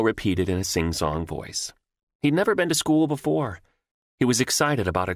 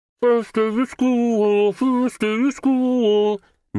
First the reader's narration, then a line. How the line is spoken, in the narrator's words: Nemo sang in a muffled voice